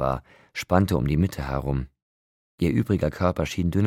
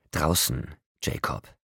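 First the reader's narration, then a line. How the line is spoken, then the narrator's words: Snarl. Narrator (German): fauchte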